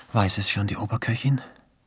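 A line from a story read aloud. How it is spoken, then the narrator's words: Whisper. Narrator (German): flüsterte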